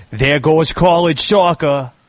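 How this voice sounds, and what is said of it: Put-on Boston accent. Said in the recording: “That's a good Boston, pal. ... That's a good Boston.”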